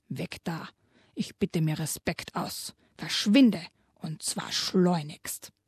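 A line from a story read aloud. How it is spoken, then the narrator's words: Grunt. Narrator (German): grunzte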